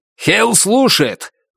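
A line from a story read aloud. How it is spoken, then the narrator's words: Sudden bark over phone. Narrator (Russian): неожиданно рявкнула в трубке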